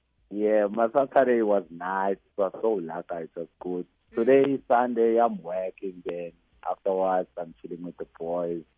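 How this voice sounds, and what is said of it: Cheerful, happy-sounding voice. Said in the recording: “you sound so happy”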